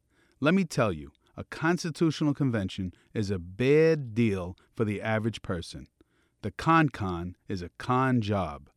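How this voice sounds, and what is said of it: Brooklyn accent. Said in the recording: “I'm from Brooklyn originally. You may be able to tell by my accent.”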